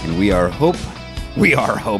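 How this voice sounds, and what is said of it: Yoda-like character voice. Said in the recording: “I'm speaking like Yoda now. ... You sound like an Ewok”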